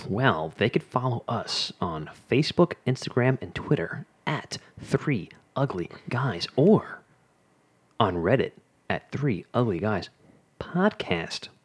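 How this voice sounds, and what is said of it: Announcer voice. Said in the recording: “That was a good announcer voice.”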